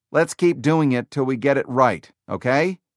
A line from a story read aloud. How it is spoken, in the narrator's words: he said